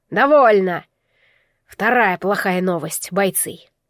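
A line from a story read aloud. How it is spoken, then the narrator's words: Hoarse voice carrying clearly. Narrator (Russian): хриплый голос Малика уже без помех разносился по осеннему воздуху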